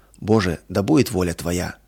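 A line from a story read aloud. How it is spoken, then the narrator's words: Heartfelt whisper. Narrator (Russian): От всего сердца прошептала она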